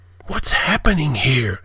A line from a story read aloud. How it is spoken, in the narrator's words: whispered, his heart jackhammering in his chest